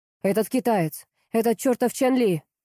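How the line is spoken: Almost shouting. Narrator (Russian): Дорохов почти кричал

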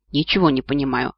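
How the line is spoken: Puzzled mutter. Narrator (Russian): озадаченно пробормотал Нори

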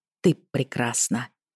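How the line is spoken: Mouthed whisper. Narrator (Russian): прошептала одними губами

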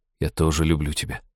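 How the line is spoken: Quiet tender. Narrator (Russian): сказал он тихо

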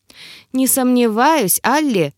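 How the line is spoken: Chuckling. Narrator (Russian): хохотнул эльф

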